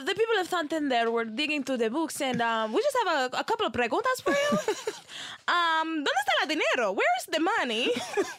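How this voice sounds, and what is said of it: Put-on Spanish accent. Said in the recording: “Let me put on my Spanish accent.”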